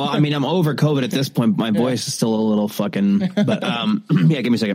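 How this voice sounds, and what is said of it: Usual voice. Nothing is said of it.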